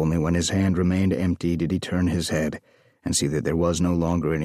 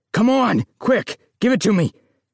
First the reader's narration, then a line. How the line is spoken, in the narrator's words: shouted